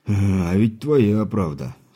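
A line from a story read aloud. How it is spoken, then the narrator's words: Rueful sigh. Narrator (Russian): сокрушенно вздохнул кузнец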